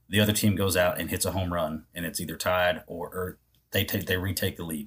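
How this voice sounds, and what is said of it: Tired, worn-down voice. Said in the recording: “I'm sure you can hear it in my voice. I'm tired. ... I'm worn down.”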